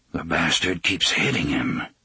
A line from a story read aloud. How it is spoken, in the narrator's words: he murmured